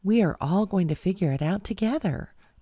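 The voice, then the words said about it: Elementary teacher voice. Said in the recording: “in her best teacher voice”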